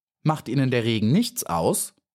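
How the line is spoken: Plain question. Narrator (German): fragte Maya

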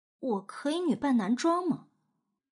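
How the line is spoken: Disappointed quiet mutter. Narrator (Chinese): 他失望的小声嘀咕一句

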